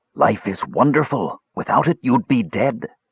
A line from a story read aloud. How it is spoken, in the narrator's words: a voice whispered